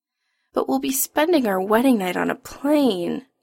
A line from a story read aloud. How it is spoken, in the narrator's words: Adam whines